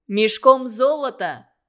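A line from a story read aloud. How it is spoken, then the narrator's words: Shouting. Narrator (Russian): закричал старший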